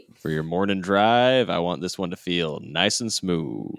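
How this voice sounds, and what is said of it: Smooth radio announcer voice. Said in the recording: “will use his radio announcer voice.”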